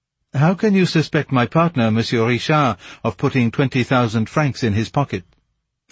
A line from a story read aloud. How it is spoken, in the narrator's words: Montchamin hastened to ask her more gently